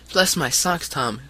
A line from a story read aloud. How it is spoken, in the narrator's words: cried the short, stout man